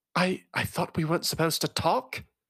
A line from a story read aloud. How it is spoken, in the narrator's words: Loella whispered cuttingly